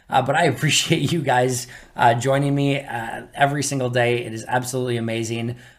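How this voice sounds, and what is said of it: Strained, fading tired voice. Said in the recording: “I am losing my voice. ... I am dead tired”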